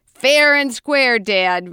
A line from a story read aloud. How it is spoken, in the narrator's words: Rusty laughed